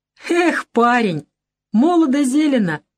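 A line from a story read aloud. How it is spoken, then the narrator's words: Laughing. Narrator (Russian): рассмеялся Фалалеев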